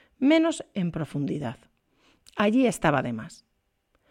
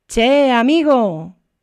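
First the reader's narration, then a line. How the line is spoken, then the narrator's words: Workers shouting. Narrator (Spanish): le gritaban los peones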